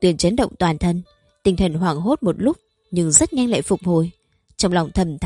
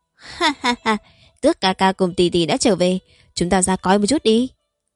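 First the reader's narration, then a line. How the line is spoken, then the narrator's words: Laughing loudly. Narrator (Vietnamese): Như Phong cười to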